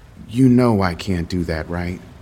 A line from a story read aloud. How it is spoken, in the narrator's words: She said it so calmly